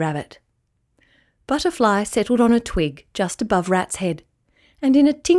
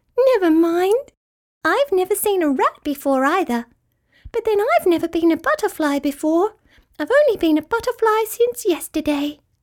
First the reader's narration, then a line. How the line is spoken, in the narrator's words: said Butterfly happily